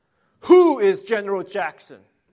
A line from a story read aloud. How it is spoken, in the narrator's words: Cartwright just thundered